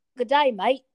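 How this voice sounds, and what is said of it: Put-on Australian accent. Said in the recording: “say good day, mate, in an Australian accent.”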